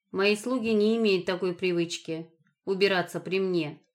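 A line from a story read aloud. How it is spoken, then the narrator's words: Icy tone. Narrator (Russian): сказал Пахан ледяным тоном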